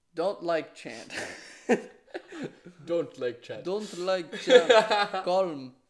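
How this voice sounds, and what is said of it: Put-on Russian accent. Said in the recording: “In the Russian accent.”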